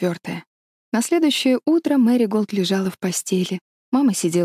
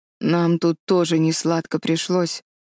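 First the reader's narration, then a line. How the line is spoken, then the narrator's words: Gloomy old woman. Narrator (Russian): мрачно заметила бабушка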